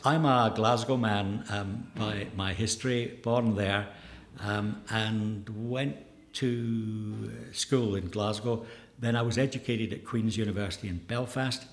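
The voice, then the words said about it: Scottish Glasgow accent. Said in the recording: “that lovely accent tells me that you are from a very beautiful part of the world”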